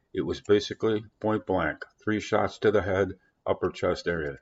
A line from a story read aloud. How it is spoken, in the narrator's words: Dubik said